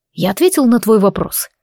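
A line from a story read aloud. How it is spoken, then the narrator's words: Wry "hm". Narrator (Russian): хмыкнул Рейджин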